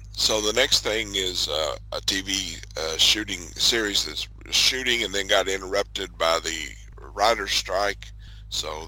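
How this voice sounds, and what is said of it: Strained, fading hoarse voice. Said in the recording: “I'm losing my voice a little bit”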